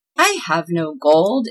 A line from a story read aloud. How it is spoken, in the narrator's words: exclaimed Claus